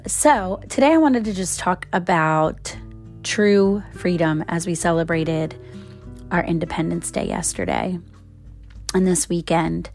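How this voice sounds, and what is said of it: Voice altered by a cold. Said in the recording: “my voice sounds a little bit different. And yesterday, my voice was hardly there ... I got a cold and took my voice out.”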